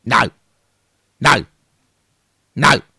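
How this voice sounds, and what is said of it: Imitates another person's voice. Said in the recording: “my impression of Ben Kingsley from the film”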